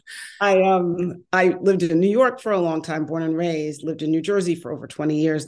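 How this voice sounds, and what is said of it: Slight New York accent. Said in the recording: “You can still hear my New York accent. ... I can hear a little accent,”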